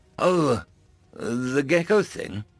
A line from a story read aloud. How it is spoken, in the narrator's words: Stephen sighed